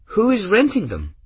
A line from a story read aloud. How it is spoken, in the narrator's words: Gwen asked brightly